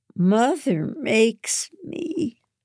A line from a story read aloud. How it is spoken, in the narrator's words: she whines